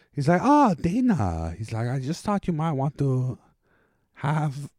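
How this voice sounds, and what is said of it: Made-up Russian, Eastern European accent. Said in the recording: “It's a made up accent. ... It's a weirdly kind of Russian, Eastern European. ... It's an Eastern European accent.”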